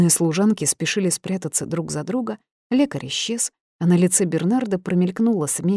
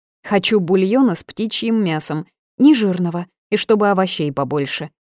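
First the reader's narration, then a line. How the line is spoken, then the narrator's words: Capricious shout. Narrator (Russian): крикнула капризно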